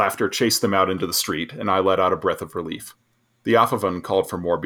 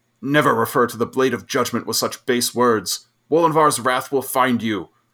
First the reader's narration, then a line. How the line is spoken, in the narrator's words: he shouted back